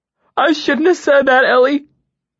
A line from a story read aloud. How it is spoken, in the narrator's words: he sobbed, sounding more wretched and repentant than I would have thought possible